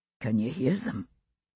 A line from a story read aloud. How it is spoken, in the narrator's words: Buck muttered under his breath